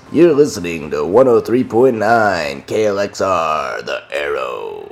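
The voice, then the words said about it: Radio announcer voice. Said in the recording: “I have a great radio voice.”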